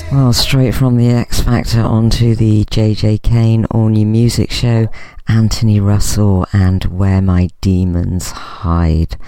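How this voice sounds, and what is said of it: Northern English accent. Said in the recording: “I've still got it, you see, that northern accent.”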